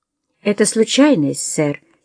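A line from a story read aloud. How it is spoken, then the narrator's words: Quiet explanation. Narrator (Russian): тихо пояснил он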